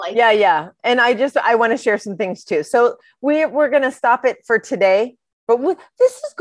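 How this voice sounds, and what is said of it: Usual voice. Nothing is said of it.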